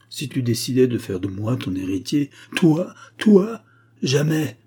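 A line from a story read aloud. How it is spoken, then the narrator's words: Exclaimed. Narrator (French): s'écria Jacob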